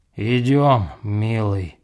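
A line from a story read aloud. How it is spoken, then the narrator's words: Grumbling, seemingly soberer. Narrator (Russian): ворчала она, как будто трезвее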